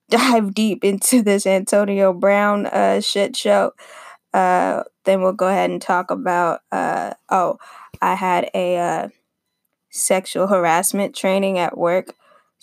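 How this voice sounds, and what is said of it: Damaged, rough-sounding voice. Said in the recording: “my voice is fucked up”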